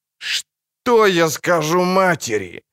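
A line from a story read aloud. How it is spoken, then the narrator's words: Moaning. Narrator (Russian): простонал он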